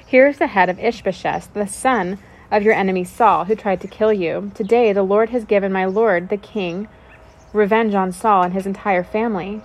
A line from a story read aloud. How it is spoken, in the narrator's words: they exclaimed to the king